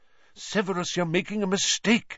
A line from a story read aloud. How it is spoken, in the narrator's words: said Lupin urgently